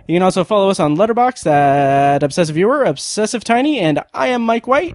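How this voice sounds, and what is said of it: 90s game show host voice. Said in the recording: “What is that weird voice you're doing? ... that was my weird game show host voice. ... It did sound like a 90s game show host.”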